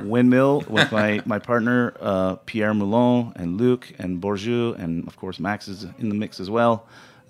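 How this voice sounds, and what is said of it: Rough, worn-out sounding voice. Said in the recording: “I sound pretty rough today”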